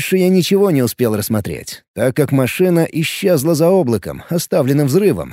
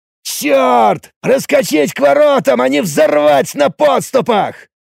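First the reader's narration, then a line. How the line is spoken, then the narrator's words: Shouting. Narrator (Russian): закричал все тот же Оридж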